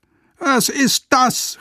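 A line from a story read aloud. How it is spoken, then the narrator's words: Called out. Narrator (German): rief er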